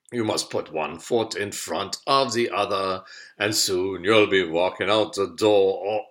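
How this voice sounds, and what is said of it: Bad Bürgermeister Meisterbürger accent impression. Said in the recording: “sorry the bad accent, but it was Bürgermeister Meisterbürger”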